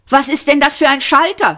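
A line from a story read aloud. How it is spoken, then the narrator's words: Shout. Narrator (German): schrie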